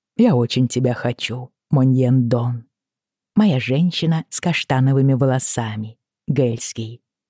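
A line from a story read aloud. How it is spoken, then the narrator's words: Soft, gentle voice. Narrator (Russian): сказал он мягко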